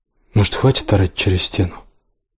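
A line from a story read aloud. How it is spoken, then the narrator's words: Quiet. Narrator (Russian): сказал тихо Отис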